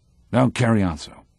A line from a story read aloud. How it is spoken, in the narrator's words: he says gruffly